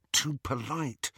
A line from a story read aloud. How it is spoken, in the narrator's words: Harry whispered in Hermione's ear